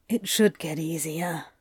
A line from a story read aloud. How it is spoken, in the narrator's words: Crowley mumbles